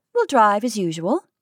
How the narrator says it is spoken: said Kate calmly

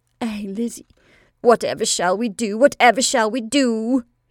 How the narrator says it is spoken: she cried

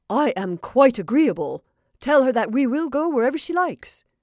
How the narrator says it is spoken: Paul, who was very much excited, exclaimed

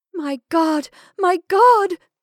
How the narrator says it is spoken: cried Amy

